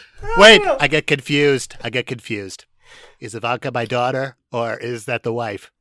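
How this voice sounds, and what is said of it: Usual voice. Nothing is said of it.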